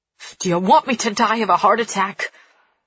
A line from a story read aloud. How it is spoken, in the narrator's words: He snarls